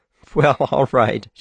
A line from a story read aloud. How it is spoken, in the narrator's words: she said, laughing